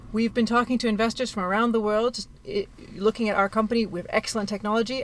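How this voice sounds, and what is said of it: Canadian accent. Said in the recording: “you have an accent ... I was born in Canada.”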